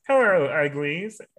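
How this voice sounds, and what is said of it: Kermit-like cartoon Martian character voice. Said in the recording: “I do that voice ... I've done that voice so many times ... He's the one that sounds like Kermit the Frog mixed in with that little Martian guy ... Marvin the Martian”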